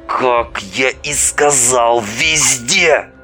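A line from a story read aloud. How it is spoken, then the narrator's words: Through gritted teeth. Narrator (Russian): Сквозь зубы процедил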